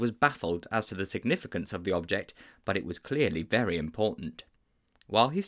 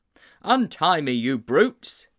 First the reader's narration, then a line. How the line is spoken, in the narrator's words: he cried